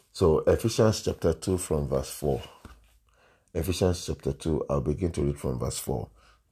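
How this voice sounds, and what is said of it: Voice affected by a cold. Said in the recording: “I have a bit of a cold... pardon me if my voice is somehow”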